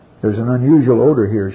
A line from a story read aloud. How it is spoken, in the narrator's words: she said